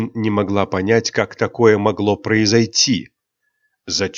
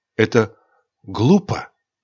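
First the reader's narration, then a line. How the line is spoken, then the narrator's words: Whisper. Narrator (Russian): прошептала Айрин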